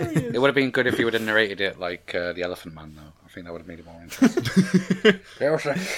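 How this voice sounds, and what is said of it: Usual voice. Nothing is said of it.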